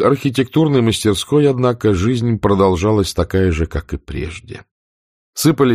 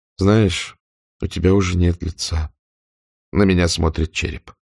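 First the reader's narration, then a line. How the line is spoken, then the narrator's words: Pensive, detached. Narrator (Russian): задумчиво, отстраненно, а на прощание сказала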